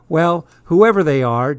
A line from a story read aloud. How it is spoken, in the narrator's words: Dad said with a quick laugh